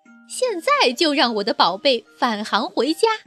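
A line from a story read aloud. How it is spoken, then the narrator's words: Loud shouting woman. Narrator (Chinese): 布朗太太 大声喊道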